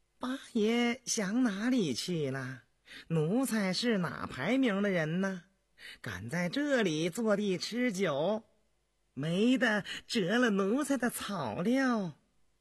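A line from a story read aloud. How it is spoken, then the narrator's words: Weak, sinister laugh. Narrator (Chinese): 阿灵阿仿佛大病初愈，阴笑道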